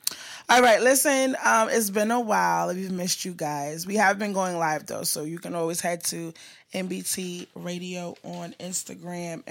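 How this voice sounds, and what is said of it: Slightly raspy voice. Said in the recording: “excuse my voice. It's a little raspy”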